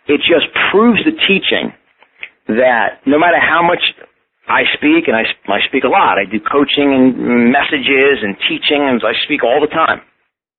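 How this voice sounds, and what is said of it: Strong New York accent. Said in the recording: “my strong New York accent ... I will always have this New York accent”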